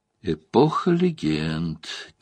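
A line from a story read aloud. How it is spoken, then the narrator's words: Quiet repetition. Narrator (Russian): тихо повторил Турак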